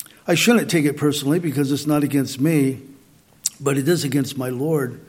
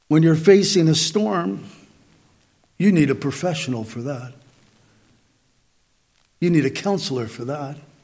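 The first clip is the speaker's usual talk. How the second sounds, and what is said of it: Sarcastic tone. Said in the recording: “you sound a little sarcastic. ... I know I do.”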